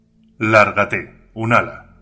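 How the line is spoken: Controlled voice. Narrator (Spanish): dijo con voz controlada

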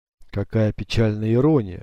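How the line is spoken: Breathed out. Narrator (Russian): выдохнул капитан

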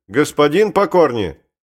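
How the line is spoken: Louder shout. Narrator (Russian): Он крикнул громче

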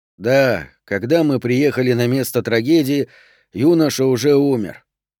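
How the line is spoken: Weary rote speech. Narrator (Russian): устало заученно говорил Дюпре

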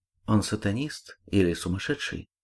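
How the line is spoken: Whispered question. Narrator (Russian): шепотом спросила Ольга

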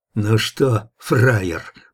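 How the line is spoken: Menacing through gritted teeth. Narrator (Russian): процедил один из них, наголо остриженный из бычьей шеи

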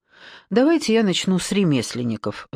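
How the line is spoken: Sighing. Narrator (Russian): вздохнула Маша

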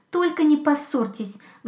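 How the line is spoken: Hedgehog pleading. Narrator (Russian): взмолился ежик

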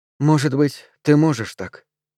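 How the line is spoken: Quiet. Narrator (Russian): тихо сказала Арден

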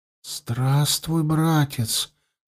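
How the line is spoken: Barely audible teenage whisper. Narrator (Russian): одними губами прошептал подросток

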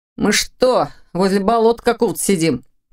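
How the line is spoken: Grumbling. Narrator (Russian): проворчал Ваня

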